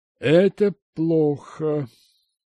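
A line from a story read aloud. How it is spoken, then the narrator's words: Dull, hollow voice. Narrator (Russian): глухо сказал полковник Ройф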